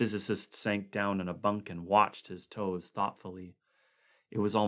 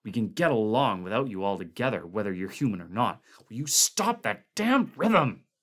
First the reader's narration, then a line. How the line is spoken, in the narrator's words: Clark spat